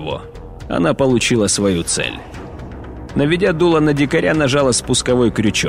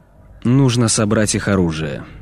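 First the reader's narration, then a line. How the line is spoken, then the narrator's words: Tired speech. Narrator (Russian): устало сказал Ольт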